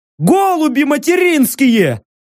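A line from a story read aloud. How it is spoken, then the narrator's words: Joyful yelling. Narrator (Russian): обрадованно завопили от одного из газовых костерков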